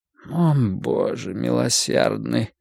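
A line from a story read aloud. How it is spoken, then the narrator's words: Quiet moan. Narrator (Russian): тихо простонал магистрат Пауэрс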